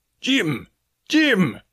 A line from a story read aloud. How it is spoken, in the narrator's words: I heard him shouting